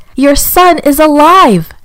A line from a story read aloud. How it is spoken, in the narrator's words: he shouted